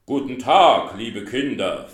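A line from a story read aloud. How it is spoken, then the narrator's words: Deep voice. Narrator (German): sagte mit tiefer Stimme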